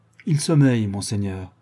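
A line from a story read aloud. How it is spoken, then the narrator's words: Sad doctor. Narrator (French): dit tristement le médecin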